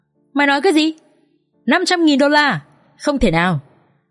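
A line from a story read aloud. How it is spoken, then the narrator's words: Shocked shouting into phone. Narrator (Vietnamese): Kha trợn trừng mắt hét lớn vào trong điện thoại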